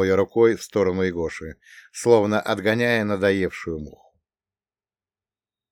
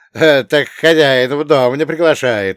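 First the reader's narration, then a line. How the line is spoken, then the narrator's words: Playful snort. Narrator (Russian): хмыкнул задорно Василий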